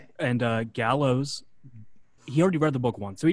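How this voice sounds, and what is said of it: Usual voice. Nothing is said of it.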